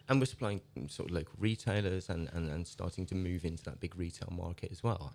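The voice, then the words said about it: Traditional farmer's regional accent. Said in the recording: “you don't look like a traditional farmer either ... I've only got the accent”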